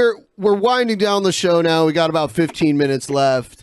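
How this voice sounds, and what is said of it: Usual voice. Nothing is said of it.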